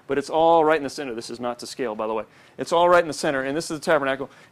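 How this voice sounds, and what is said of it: Talking really fast. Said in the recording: “I'm talking really fast”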